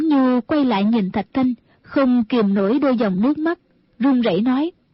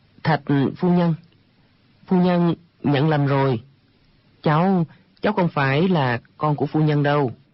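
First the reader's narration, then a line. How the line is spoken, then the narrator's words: Stammering. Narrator (Vietnamese): Chàng ấp úng nói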